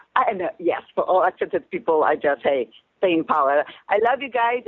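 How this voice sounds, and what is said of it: Speaker with a foreign accent. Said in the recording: “You got an accent.”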